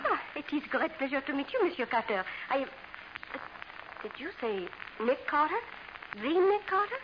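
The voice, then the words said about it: Phony French accent. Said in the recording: “Your accent's showing. Oh, never mind the phony accent.”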